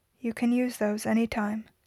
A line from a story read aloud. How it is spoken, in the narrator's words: Steve said quietly